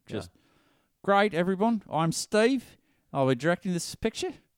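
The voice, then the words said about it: Terrible put-on Australian accent. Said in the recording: “I'm just going to have a terrible Australian accent”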